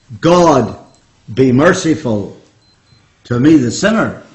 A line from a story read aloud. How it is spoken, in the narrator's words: he cried out